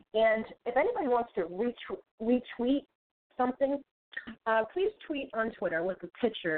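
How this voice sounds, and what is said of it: Boston accent. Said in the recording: “I have a Bostonian accent”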